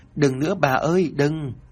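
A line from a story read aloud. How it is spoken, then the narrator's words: Crying, struggling. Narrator (Vietnamese): vùng vẫy khóc lóc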